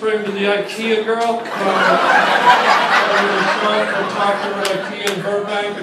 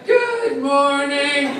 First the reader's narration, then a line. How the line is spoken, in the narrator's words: with their little chirpy voice